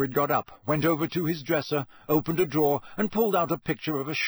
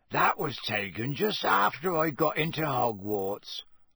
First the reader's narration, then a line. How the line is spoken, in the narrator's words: Hagrid croaked